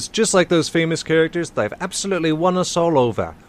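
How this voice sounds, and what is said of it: Odd unidentified put-on accent. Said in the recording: “I don't know what accent that was.”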